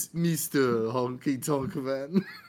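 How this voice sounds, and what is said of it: Deep French accent imitation. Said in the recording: “It's got a deep French accent when he says”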